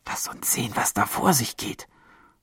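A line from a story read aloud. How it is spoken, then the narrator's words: Girl whispering. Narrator (German): flüsterte eines der Mädchen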